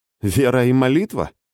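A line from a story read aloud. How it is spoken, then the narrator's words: Skeptical snort. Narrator (Russian): скептически хмыкнул Илизарий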